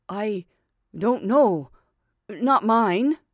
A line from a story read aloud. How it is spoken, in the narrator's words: Aksionov tried to answer, but could hardly utter a word, and only stammered